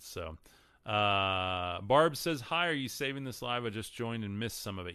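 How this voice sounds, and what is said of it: Texan accent. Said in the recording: “I'm from Texas. ... My accent screws up a lot of these words.”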